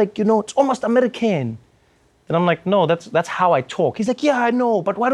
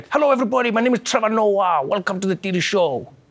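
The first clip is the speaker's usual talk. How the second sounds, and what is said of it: Exaggerated put-on African accent. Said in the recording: “why don't you like make it more African ... that accent, that's the one you should do ... but that's not my actual accent”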